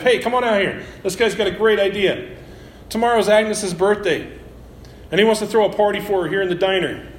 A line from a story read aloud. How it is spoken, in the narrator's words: He turns to the kitchen and shouts to his wife